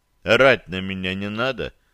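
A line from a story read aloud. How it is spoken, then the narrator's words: Calm retort. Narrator (Russian): спокойно парировал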